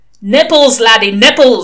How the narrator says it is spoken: said the voice testily

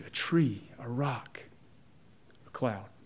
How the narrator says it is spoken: The old man leaned forward and whispered

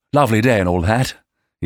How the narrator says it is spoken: he added cheerfully

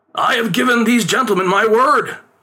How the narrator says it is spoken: his father pleaded

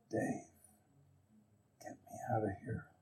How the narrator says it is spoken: he kind of um, whispered to me in my ear, uh, and he said

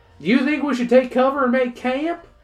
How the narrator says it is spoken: Caleb asks, shouting over the wind

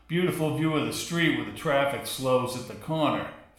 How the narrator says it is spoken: Ferry said, chuckling

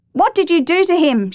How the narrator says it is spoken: shouted

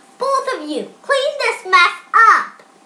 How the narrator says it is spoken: With a look of shock on her face, their mother exclaimed

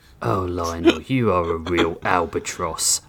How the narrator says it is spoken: Hijoki muttered

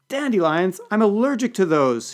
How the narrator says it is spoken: wailed

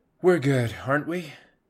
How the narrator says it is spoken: the auxiliary Ceres sighed, wondering if his primary had somehow taken offense at his need for reassurance

